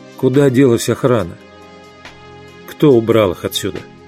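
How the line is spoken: Calm question. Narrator (Russian): Майкл спросил спокойно

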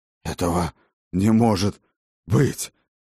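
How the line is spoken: Hoarse rasp. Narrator (Russian): прохрипел он

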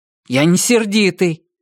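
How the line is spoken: Angry. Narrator (Russian): сердито ответил я

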